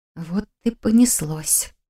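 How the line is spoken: Shivering whisper. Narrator (Russian): шепнула я, вздрогнув от мурашек, побежавших по всему телу от холода

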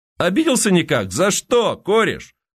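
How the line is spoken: Shout. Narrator (Russian): крикнул Легостаев

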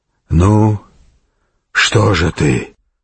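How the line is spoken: Knight rasping hoarsely. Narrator (Russian): прохрипел рыцарь

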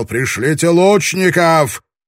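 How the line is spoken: Shouting from a distance. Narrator (Russian): Ябо, остановившийся на безопасном расстоянии, кричал

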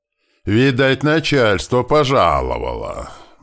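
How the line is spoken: Deep booming bass. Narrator (Russian): басом пророкотал кузнец Микула

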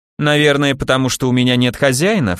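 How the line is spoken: Snort. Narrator (Russian): фыркнул Арчибальд

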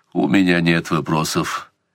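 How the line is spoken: Cold. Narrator (Russian): сказал Сварог холодно

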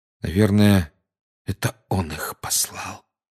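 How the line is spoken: Quiet. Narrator (Russian): тихо сказал Гарри

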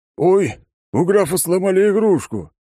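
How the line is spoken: Mocking guffaw. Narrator (Russian): захохотал мой враг

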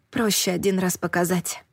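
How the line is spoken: Whisper. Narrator (Russian): шепнула я

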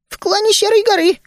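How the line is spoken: Squeak. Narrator (Russian): пискнул Ми

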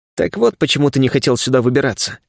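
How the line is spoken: Wry snort. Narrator (Russian): хмыкнул я

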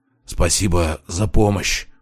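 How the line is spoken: Hoarse rasp. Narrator (Russian): прохрипел он

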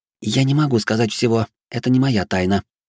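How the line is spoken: Clipped, emphatic. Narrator (Russian): отчеканила Фьюри

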